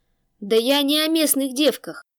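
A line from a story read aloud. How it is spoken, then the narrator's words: Frenzied growl. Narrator (Russian): не себя прорычал Тэ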